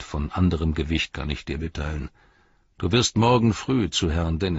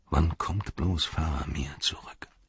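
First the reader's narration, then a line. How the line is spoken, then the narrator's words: Sighing murmur. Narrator (German): der Zauberer seufzte und murmelte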